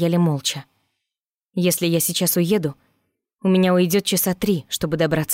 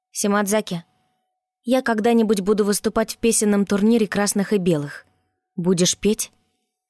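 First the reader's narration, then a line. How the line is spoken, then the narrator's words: Plain. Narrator (Russian): спросила я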